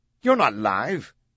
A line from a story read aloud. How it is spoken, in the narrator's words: Roche snapped